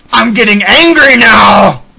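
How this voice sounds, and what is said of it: Imitates another person's voice, angry. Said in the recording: “That was my Lee impression.”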